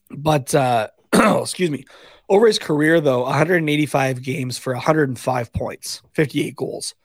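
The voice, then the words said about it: Hoarse, fading voice. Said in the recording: “Oh man, I am really losing my voice.”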